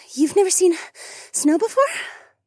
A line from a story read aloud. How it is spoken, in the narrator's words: Rachel asked in between breaths as she panted from walking up the hill at such a fast pace